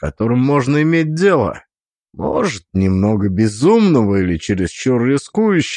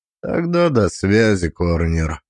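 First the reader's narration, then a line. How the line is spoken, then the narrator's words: Indifferent. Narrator (Russian): сказал он безразличным тоном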